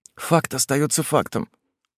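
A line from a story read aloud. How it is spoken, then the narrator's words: Whisper. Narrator (Russian): прошептала красноволосая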